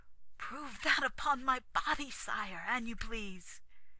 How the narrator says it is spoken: he said desperately

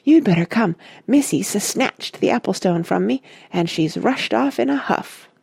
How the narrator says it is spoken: he said breathlessly

